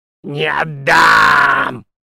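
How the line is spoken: Snarling, hissing. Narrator (Russian): окрысилась Букараха и зашипела

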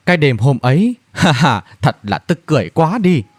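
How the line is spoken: Laughing. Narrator (Vietnamese): Thần Nam bật cười mà nói

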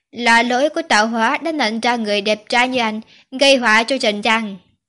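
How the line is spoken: Annoyed. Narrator (Vietnamese): Quý Hoài bực bội nói

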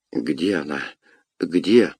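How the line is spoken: Trembling voice. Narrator (Russian): спросил он дрожащим голосом

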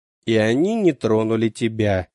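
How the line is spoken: Father's lifeless voice. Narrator (Russian): мертвым голосом проговорил отец

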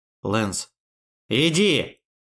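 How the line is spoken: Loudest possible shout. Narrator (Russian): он крикнул так громко, как только смог

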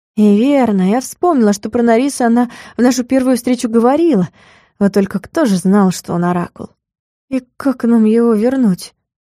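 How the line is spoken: Heavy sigh. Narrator (Russian): Тяжко вздохнула

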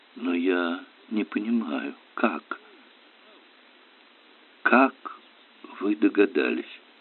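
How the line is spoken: Cracked whisper. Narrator (Russian): Кто-то прошептал над треснутым голосом

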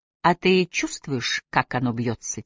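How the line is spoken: Quiet question. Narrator (Russian): тихо спросила Сиклиф

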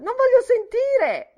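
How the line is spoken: Shouted. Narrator (Italian): gridò

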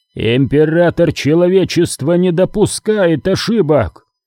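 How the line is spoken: Roar. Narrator (Russian): взревел Пертураба

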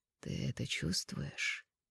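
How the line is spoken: Velvety question. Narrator (Russian): спросили меня бархатным голосом

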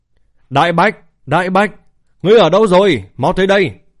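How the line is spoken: Loud shout. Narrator (Vietnamese): hét lớn

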